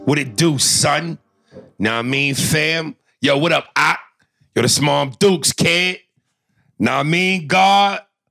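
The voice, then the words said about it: Exaggerated New York street accent. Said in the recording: “We in New York, baby had to pull out my New York dialect.”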